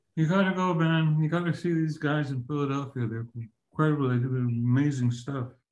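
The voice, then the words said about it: Imitates another person's voice. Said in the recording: “I'll do a terrible Terry Funk impression.”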